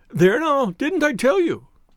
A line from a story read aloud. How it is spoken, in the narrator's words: cried the poor little man